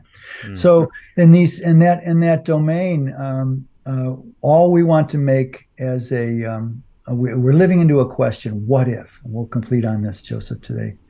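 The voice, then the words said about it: Slightly hoarse voice. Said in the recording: “I'm getting a little hoarse.”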